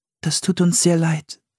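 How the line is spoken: Quiet. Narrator (German): sagte sie leise

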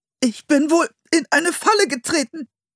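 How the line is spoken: Strained voice. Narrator (German): sagte er mit gepresster Stimme

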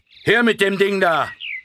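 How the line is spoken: Gruff call. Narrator (German): eine barsche Stimme rief

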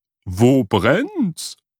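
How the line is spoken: Called out. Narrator (German): rief sie

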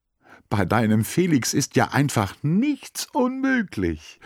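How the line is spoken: Called out. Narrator (German): ruft

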